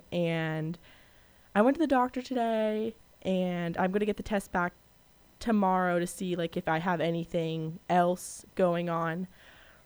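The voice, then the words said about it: Hoarse, wrecked voice. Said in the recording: “as you can probably hear, my voice is gone... It's pretty much wrecked... my throat's all swollen... my voice is a little wrecked”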